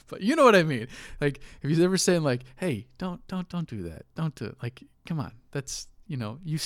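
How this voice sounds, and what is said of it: Usual voice. Nothing is said of it.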